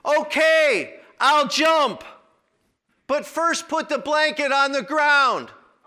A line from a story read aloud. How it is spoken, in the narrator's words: The man hollered back